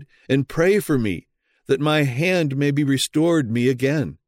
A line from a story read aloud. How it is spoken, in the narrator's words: he pleaded